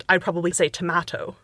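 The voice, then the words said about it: Fake UK-accommodating pronunciation. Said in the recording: “my fake, my like accommodating towards a UK accent”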